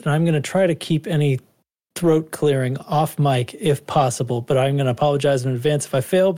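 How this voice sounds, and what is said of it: Slightly sick-sounding voice. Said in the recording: “I don't know if you can tell in my voice, but I've been pretty sick the past few days ... there's a little bit of it hanging on my voice”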